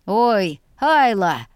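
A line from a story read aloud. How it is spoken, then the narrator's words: Short laugh. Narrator (Russian): хохотнул Виям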